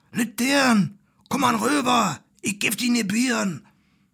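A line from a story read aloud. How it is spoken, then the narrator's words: Whispered. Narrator (German): flüstert's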